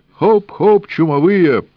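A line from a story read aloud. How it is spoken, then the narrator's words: Coachman barking. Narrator (Russian): гаркнул лихач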